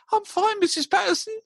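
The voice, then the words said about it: Very squeaky high voice. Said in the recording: “with that very squeaky high voice.”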